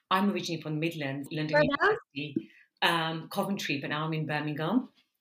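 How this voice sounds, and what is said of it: Midlands English accent, slight twang. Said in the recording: “The twang is still there, though, like, and it will never go ... So it's a bit of a weird twang. I've definitely got it somewhere. ... I'm sure you can hear it.”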